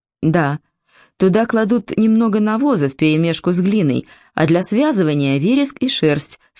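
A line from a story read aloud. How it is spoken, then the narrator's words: Plain. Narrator (Russian): сказал Малахи О'Доннелл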